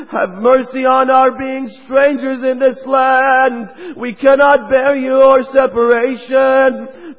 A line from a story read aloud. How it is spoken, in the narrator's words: They all pleaded to him